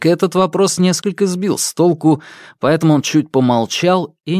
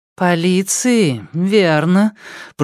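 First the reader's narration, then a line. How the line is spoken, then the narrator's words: Drawled. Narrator (Russian): протянула Лидия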